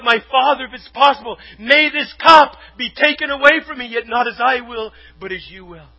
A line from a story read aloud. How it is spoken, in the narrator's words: Jesus spoke about when He was in the Garden of Gethsemane and He cried out